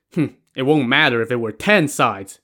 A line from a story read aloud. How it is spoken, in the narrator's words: Sun Li scoffed